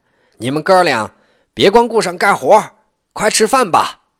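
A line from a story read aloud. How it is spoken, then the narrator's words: Old mother calling out. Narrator (Chinese): 刘更生的老娘喊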